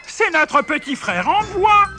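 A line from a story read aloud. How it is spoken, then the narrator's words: Shouted. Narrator (French): cria-t-il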